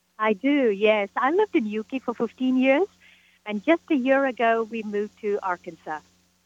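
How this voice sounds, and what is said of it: Slight British accent. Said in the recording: “You have a little bit of a British accent.”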